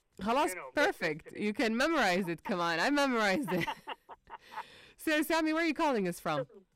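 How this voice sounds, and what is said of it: Jeddah Saudi accent in English. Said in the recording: “I'm from Jeddah. Yes, you can hear that from my voice ... Oh, your voice. Of course. ... You can hear my accent? ... Yeah.”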